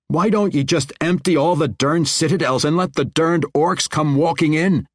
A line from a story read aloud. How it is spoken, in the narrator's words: Arnoth roared